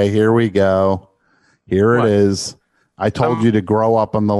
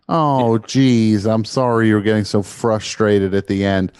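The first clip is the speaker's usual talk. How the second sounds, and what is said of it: Sarcastic tone. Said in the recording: “I'm being sarcastic.”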